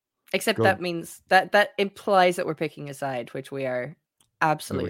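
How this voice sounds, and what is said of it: Irish accent. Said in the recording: “It works in my accent ... The Irish win again”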